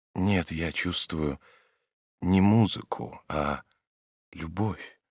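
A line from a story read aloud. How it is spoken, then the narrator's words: Quiet. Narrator (Russian): тихо сказал Обломов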